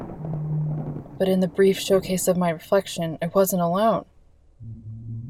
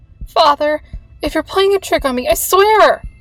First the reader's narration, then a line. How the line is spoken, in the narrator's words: I yelled, my voice cracking and shattering as it left my throat